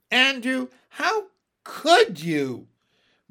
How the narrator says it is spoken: moaned Miss Lark

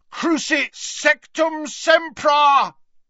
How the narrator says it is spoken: bellowed Harry from the floor

